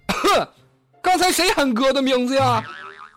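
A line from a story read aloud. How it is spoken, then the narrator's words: Loud roar. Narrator (Chinese): 另一哥们大吼道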